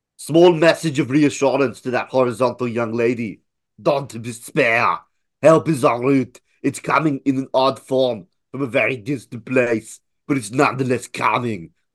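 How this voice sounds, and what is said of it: Schwarzenegger impression. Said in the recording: “It was pretty good, but it went really weird when you said en route. ... I can't say a French word in a Schwarzenegger accent.”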